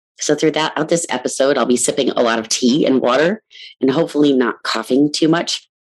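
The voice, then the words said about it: Hoarse, froggy voice. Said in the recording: “if you hear in my voice significant frog, it is because I have been dealing with bronchitis”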